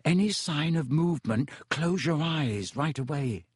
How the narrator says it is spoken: Harry said quietly

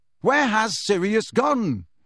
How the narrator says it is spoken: Harry yelled after the elf

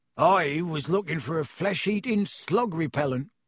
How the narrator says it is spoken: growled Hagrid

